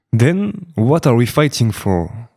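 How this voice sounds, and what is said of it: Fine English accent. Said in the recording (French): “le bel accent anglais”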